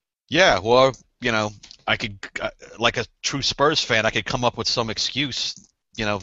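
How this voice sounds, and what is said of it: Usual voice. Nothing is said of it.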